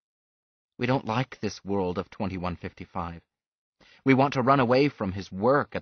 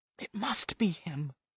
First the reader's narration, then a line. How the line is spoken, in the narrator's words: whispered Susan